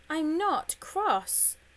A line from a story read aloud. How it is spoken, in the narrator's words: shouted George